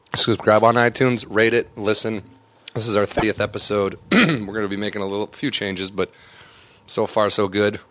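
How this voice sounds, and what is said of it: Hoarse, partly lost voice. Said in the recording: “Sorry if I sound like I can't talk. I lost my voice a little bit over the last week, but it's coming back slowly. ... Yelling at babies, yelling over fireworks”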